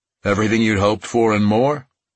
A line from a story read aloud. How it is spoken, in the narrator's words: William asked